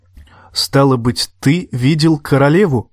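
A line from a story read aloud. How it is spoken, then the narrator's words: Plain, boy. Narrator (Russian): сказал рыжий парнишка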